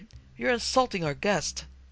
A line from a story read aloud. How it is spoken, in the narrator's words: pleaded